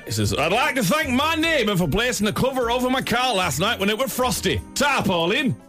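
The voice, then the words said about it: Northern English comedian's accent. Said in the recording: “Liam demands that I do this one in that Northern English comedian's accent ... Working man's club.”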